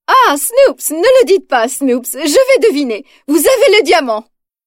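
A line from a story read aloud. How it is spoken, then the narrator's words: Exclaiming, then furious. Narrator (French): s'exclame-t-elle, puis elle devient furieuse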